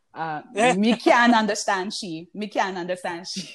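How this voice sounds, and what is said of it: Guyanese accent. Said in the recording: “my mom's accent. It's a Guyanese accent ... So that's a Guyanese accent”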